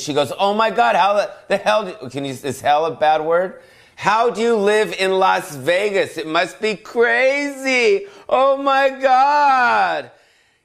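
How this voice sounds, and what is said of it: Yelling, loud excited delivery. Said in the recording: “I don't know why I'm yelling. I apologize for yelling.”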